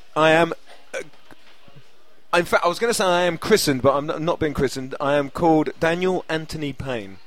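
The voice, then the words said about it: Lovely accent. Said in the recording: “The man with the lovely accent”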